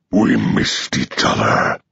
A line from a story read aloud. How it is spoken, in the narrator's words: Cetricus Ra growls